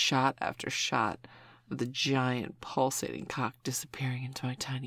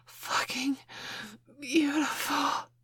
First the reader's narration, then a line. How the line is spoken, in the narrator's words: I gasped